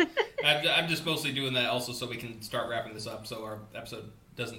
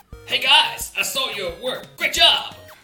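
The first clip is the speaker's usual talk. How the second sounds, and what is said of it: Anime fighting-game character voice. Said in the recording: “What is that voice ... I learned how to talk from Japanese fighting games ... I just want to hear you speak in that voice forever”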